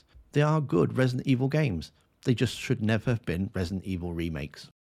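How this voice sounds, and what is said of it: Calm, relaxed accented voice. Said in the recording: “I love ... accent. I feel like I'm being told a nice story. ... He says it calmly. ... It was just so calmly and relaxed.”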